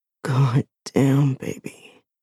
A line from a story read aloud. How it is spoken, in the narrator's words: he rasps